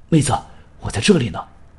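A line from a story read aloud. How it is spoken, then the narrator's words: Hurried. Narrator (Chinese): 青山急忙站起身说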